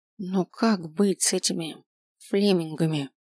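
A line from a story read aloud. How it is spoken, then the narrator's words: Barely audible whisper. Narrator (Russian): Чуть слышно прошептала Ранвей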